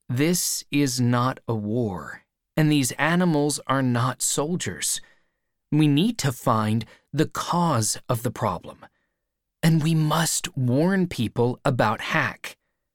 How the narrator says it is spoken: I replied, slowly

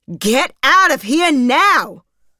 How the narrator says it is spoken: yelled the voice

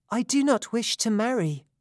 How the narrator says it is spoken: Atalanta replied softly

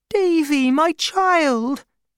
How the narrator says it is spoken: she cried

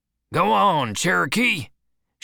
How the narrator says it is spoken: shouted its owner

